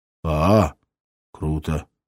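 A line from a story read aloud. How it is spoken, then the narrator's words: Mumbled. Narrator (Russian): промямлил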